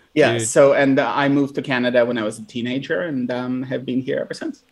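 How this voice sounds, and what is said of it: Noticeable foreign accent. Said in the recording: “you still have the accent, obviously, enough of it in your voice”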